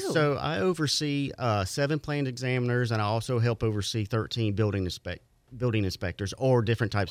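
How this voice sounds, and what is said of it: Mild Southern American accent. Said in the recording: “He's got a good radio voice... A little southern accent”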